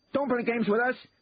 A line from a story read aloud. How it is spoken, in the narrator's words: shouted the second man